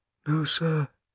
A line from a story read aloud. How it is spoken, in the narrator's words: said Shmuel quietly